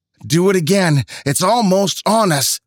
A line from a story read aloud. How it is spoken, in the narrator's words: Mandy shouted